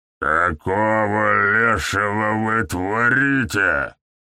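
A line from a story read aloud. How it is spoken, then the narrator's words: Familiar voice, growled. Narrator (Russian): прорычал знакомый голос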